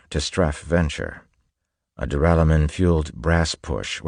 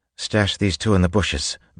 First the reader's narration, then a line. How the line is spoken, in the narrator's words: Vin said quickly